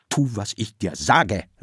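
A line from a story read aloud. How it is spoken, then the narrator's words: Thundering, stuttering shout. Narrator (German): rief Okonkwo mit donnernder Stimme und stotterte dabei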